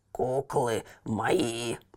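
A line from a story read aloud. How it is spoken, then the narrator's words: Grumbled. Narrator (Russian): проворчал он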